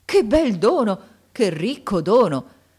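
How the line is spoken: Joyful exclamation. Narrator (Italian): esclamando con un trasporto di gioia

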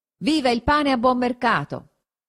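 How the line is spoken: Shout. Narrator (Italian): uno gridò

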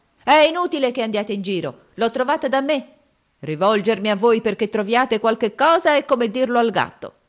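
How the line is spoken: Shouted. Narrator (Italian): gridava

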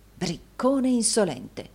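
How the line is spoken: Muttered. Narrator (Italian): mormorò Rodolfo

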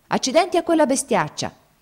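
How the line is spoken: Angry shout, drenched. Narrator (Italian): Uno dei generali fu infradiciato da capo a piedi e gridò

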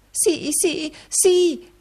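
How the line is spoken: Wife's exclamation. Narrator (Italian): esclamò la moglie

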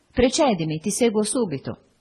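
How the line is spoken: Firm voice. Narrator (Italian): Mi diceva con la sua voce soda

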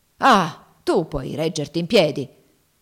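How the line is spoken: Grumbling. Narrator (Italian): brontolò Legree

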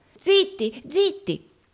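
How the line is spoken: Terrified exclamation. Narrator (Italian): esclamò Gride, atterrito

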